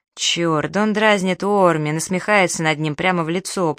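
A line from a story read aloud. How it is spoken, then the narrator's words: Groaned. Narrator (Russian): простонал Найлс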